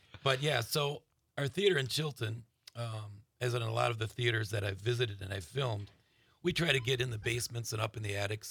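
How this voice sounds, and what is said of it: Raspy, hoarse voice. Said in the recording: “let me apologize for my throat... I don't have my normal sexy voice... The raspiness is working”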